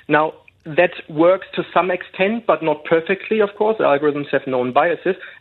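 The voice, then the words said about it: German accent. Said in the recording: “sounds to me from your accent you might be a bit upset that Germany are out of the World Cup”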